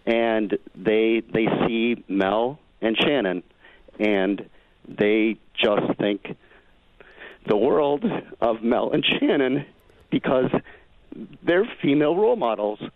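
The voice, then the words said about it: Choked-up, emotional voice. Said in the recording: “sorry for getting choked up ... why I get choked up”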